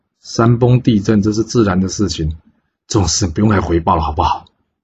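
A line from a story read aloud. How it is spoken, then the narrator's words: Sighing. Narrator (Chinese): 伯阳父叹了一口气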